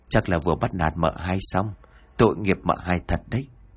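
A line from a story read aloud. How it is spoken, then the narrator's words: Muttering while busy. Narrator (Vietnamese): miệng không quên lẩm bẩm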